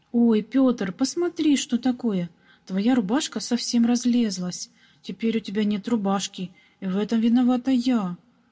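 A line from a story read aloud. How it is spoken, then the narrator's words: Regretful sudden exclamation. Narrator (Russian): Вдруг с сожалением воскликнула маленькая прачка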